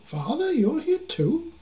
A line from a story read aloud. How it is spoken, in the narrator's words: Zeepa exclaimed